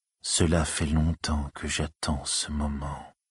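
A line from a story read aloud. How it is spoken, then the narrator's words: Soft murmur. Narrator (French): murmura doucement le Gradjet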